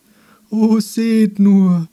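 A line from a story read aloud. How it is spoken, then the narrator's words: Wailing voice. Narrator (German): sagte der mit jammervoller Stimme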